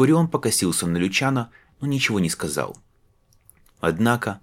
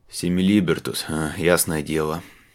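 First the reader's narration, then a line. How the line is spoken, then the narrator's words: Gruff mutter. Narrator (Russian): буркнул обер-центурион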